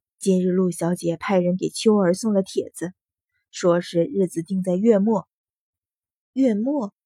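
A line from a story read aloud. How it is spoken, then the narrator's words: Sighing. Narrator (Chinese): 程夫人叹了口气，说道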